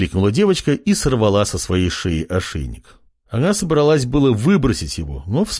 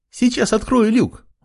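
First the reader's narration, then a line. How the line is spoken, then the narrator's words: Girl exclaiming. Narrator (Russian): воскликнула девчушка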